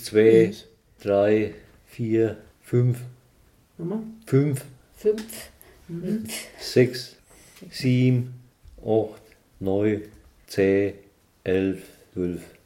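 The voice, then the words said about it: Counting in regional German dialect. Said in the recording (German): “jetzt dürfen Sie mal zählen, von 1 bis 12 ... Im Dialekt.”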